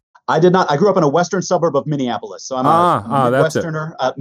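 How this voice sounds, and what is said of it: Midwestern American accent. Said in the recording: “Definitely a Midwestern accent.”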